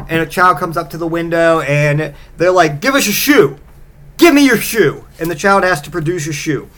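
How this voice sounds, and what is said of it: Usual voice. Nothing is said of it.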